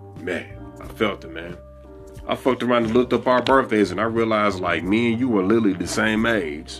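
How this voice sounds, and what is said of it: Southern country American accent. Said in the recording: “I'm a Southern nigga... So this shit already just spills into the country accent”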